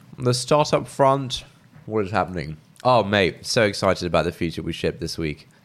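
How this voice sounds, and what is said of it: Stuffy, congested voice. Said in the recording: “I have a bit of a cold right now, as I'm sure you can tell from my voice”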